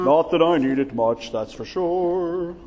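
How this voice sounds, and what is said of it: Booming loud preacher voice. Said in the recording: “in my booming pastor voice”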